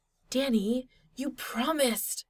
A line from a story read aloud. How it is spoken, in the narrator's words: Styles hissed